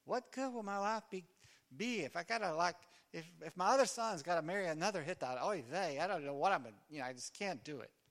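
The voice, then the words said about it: Put-on Jewish accent. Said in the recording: “I hear her doing that in a Jewish voice.”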